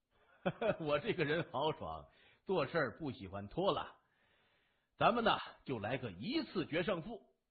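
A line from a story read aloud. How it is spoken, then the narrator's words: Middle-aged man, laughing. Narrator (Chinese): 戴眼镜的那个中年人……笑着说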